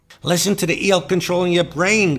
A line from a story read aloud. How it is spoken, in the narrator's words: Khan barked